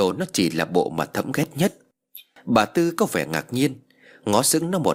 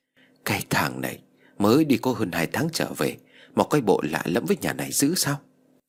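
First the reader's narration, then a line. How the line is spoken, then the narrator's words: Muttering, old woman. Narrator (Vietnamese): bà Tư lẩm bẩm nói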